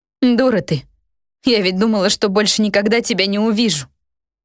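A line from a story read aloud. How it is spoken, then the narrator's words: Witch sobbing. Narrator (Russian): Колдунья разрыдалась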